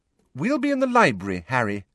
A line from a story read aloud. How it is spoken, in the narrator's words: said Hermione firmly